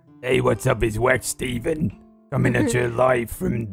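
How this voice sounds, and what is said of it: Put-on New York accent. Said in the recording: “Can you do a New York accent? ... All right, I can do one.”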